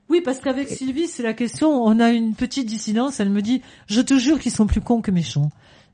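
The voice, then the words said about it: French Toulouse regional accent. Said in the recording (French): “l'accent du Pays Basque, quoi. ... Et non, c'est l'accent de Toulouse.”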